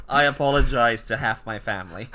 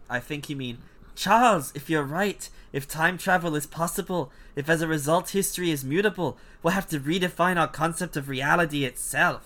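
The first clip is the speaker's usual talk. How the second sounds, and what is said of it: Poor Scottish accent. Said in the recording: “That was a terrible Scottish accent.”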